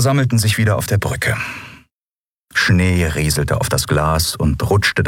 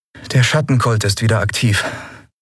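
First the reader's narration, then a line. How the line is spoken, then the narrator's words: Plain. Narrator (German): sagte sie schließlich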